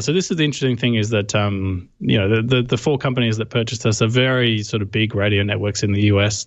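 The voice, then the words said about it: Australian accent. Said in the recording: “my accent gives it away. I'm from Australia”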